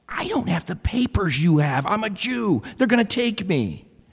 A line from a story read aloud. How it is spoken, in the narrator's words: She whispered back